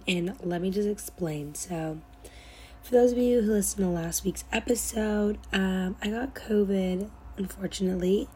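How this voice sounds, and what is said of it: Hoarse, nearly lost voice. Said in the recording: “my voice is like really gone”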